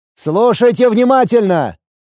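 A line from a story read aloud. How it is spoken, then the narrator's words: Loud shout. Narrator (Russian): громко выкрикнув, начал я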